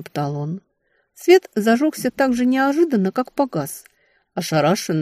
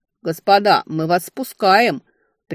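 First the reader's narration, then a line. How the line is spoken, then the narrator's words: Shouting up from below. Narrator (Russian): прикрикнул снизу смотритель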